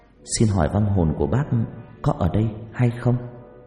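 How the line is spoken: Soft gentle voice. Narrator (Vietnamese): cô nói bằng giọng nhỏ nhẹ

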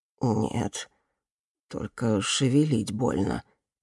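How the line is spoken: Quiet admission, old man. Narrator (Russian): тихо признался старик

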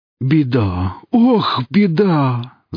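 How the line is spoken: Distressed exclamation. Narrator (Russian): воскликнул Велес

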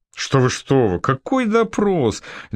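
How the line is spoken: Laughing male voice. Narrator (Russian): Дюкло засмеялся

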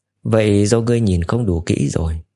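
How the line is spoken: Faint dismissive laugh. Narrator (Vietnamese): Cố Mạch cười nhạt

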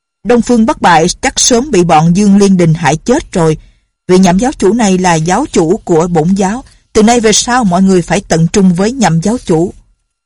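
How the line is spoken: Loud. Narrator (Vietnamese): Thượng Quan Vân lớn tiếng nói

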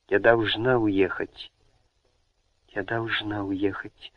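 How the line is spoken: Desperate whisper. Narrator (Russian): шептала в отчаянии

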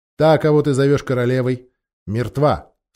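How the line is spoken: Stern. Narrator (Russian): строго произнес принц

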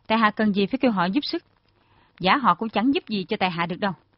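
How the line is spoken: Cold reply. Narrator (Vietnamese): Thiếu niên áo trắng lạnh lùng đáp

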